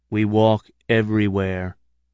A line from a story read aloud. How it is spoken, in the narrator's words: said Katz solemnly